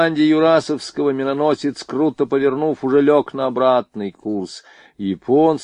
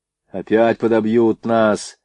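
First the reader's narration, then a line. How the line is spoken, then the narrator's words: Fearful grumbling sailors. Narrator (Russian): ворчали матросы, боязливо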